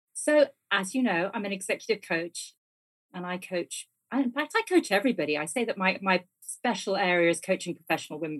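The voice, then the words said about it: British accent. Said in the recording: “as you can tell from my accent, folks, I'm from the UK and I'm based in London”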